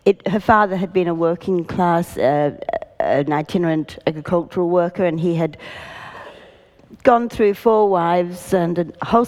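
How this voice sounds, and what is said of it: Sick, slightly off-sounding voice. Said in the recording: “I want to apologise if my voice is a bit funny. I've got one of those dreadful lurgies at the moment”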